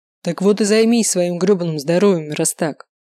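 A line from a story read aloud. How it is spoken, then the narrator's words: Barking angrily. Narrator (Russian): рявкнул Николай Викторович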